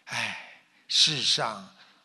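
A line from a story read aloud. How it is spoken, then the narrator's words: Long sigh. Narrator (Chinese): 菩萨长叹道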